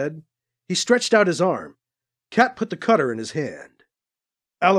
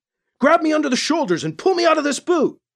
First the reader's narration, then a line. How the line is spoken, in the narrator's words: he yelled to Cat